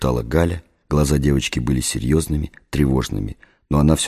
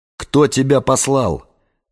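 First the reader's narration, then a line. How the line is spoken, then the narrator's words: Shout. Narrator (Russian): закричал я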